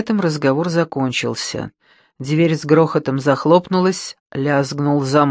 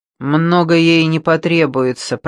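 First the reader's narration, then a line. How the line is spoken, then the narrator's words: Grumbling. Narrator (Russian): проворчал Верзила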